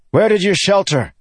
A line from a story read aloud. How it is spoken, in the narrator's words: he demanded in a loud voice